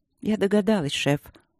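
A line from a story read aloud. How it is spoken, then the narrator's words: Calm reply. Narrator (Russian): отозвалась Дробжик спокойно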